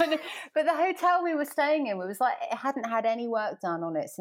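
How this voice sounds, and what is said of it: Usual voice. Nothing is said of it.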